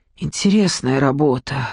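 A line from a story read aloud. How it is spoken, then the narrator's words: Sighing. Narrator (Russian): вздохнула Надежда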